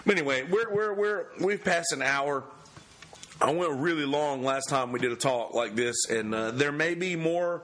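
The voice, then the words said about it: Hoarse, strained voice. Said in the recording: “I'm hoarse. I can't even do it.”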